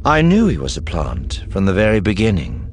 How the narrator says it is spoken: Thrawn said calmly

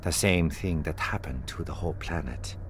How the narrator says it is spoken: Ciara said quietly

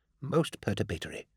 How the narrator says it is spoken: murmur

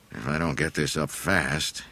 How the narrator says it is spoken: he grumbled to himself

